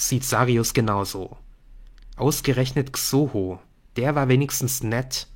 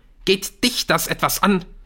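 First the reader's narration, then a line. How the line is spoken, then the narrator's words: Hissing. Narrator (German): faucht Leland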